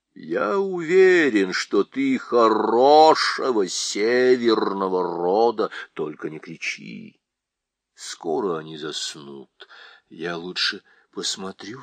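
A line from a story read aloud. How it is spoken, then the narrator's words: Plain. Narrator (Russian): сказал Шаста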